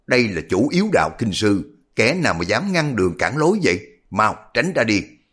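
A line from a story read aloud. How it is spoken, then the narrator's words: Harsh impatient shout. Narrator (Vietnamese): Thấy lữ nhân trẻ tuổi này rê ra mãi không đi, liền mới gằn giọng quát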